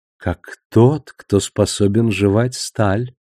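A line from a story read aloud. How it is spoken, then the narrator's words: Feminine purring voice. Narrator (Russian): Его голос был женским и мурлыкающим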